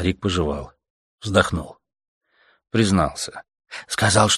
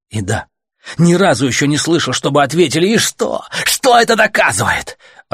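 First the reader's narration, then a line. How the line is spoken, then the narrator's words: Shouting. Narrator (Russian): Артем уже не Гомеру кричал, а всем этим гребаным велосипедистам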